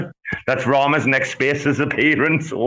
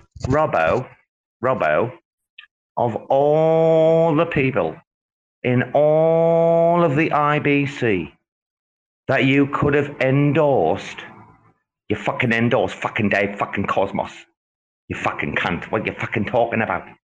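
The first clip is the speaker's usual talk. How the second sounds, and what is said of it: Imitates another person's voice. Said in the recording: “this is my impression of Rama”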